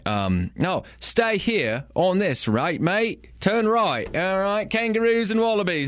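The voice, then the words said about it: Put-on Australian accent, GPS voice. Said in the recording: “I changed my Siri to an Australian accent”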